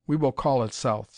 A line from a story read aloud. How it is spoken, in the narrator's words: said Professor Sykes